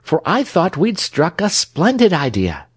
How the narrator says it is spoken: sighed Trot

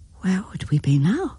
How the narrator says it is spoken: she whispered

